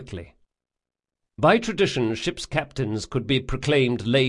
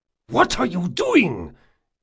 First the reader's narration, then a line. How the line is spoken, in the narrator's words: Jabril hissed